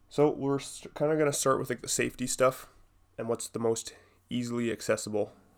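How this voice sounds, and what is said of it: Raspy, sick-sounding voice. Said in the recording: “my voice sounds a little bit fucked up, a little bit sick right now ... a little bit of rasp to my throat”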